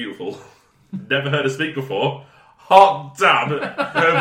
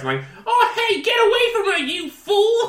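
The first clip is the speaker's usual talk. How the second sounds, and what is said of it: Whiny New York accent imitation. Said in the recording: “her voice is so irritating. Like a proper, like, New Yorker, like, whiny New Yorker accent. ... That's exactly how she sounds! ... That was pretty good.”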